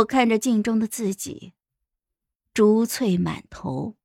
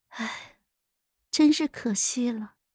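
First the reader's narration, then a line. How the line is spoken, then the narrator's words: Soft pitying sigh. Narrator (Chinese): 皇后眼神之中带着一丝怜悯，轻叹道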